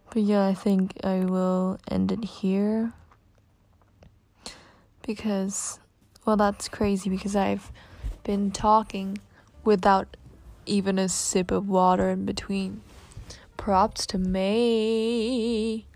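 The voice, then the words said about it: Australian accent. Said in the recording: “my crazy Aussie accent, so called ... Aussie accent”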